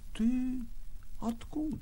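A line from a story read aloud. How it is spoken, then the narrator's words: Quiet question. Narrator (Russian): спросил негромко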